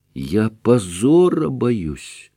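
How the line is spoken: Mysterious whisper. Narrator (Russian): прошептал он таинственно

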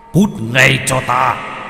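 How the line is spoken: Shout. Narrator (Vietnamese): Ông ta quát lên

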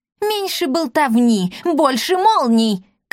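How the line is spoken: Shouted reply. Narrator (Russian): крикнула в ответ Бия Меруан из Селит

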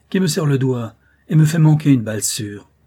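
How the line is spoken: Exclaimed. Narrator (French): s'écria-t-il

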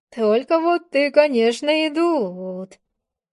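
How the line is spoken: Drawling. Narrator (Russian): протянула

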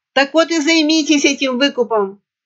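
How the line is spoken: Barked shout. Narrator (Russian): гаркнул Горд

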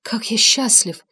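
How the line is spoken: Barely audible murmur. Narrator (Russian): чуть слышно пробормотал он при виде Мисси

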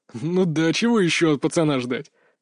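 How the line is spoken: Chuckling. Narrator (Russian): хохотнул он

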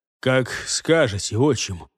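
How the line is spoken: Heavy sigh. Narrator (Russian): тяжело вздохнул тюремщик

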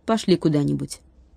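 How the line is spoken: Quick speech. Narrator (Russian): быстро сказала

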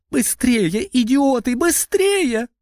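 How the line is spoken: Shrieking from above. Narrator (Russian): визжал сверху Андрей

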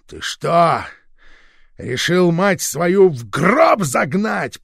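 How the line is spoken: Father shouting angrily. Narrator (Russian): прокричал отец

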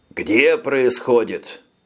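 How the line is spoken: Stern question. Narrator (Russian): строго спросил Лизерман, чтобы пресечь эту панику

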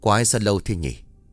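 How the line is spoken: Impatient muttering man. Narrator (Vietnamese): Có chút sốt ruột, ông lẩm bẩm

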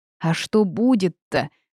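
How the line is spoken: Screamed back. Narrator (Russian): Завопила я в ответ

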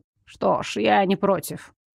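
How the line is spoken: Hesitant mutter. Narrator (Russian): пробормотала Уляна после томительного ожидания

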